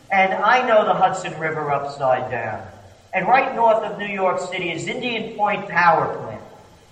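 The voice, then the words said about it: Slight New York accent. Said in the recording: “I'm a New Yorker, as you may tell by my slight accent.”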